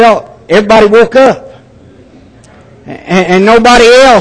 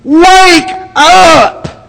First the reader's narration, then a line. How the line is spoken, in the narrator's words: she screamed